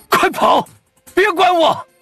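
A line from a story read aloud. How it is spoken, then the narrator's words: Urgent shout. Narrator (Chinese): 范蠡 急喊着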